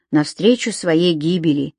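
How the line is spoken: Quiet. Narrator (Russian): тихо добавил Том

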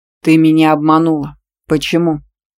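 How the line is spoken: Angry man's accusing bark. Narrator (Russian): Обвиняюще рявкнул очень сердитый мужчина

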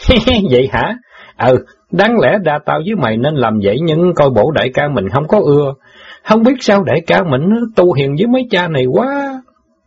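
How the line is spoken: Laughing. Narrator (Vietnamese): Tên chống xào bật cười

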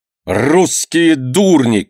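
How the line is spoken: Angry shout. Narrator (Russian): крикнул сердито мастер

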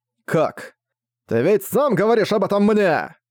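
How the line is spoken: Childlike demon shouting. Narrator (Russian): закричал демон, словно маленькое дитя тьмы

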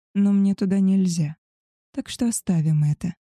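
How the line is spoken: Soft. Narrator (Russian): мягко добавил Вулк

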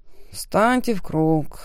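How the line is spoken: Weary exhale. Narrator (Russian): выдохнул служащий, утомленный произносить фразу в нацатый раз

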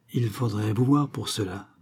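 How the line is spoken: Hesitant stammer. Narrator (French): balbutia Venture, cherchant à rassembler ses souvenirs

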